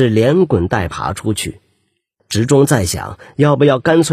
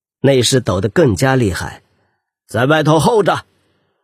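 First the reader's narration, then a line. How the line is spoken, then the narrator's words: Stern. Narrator (Chinese): 直中厉声说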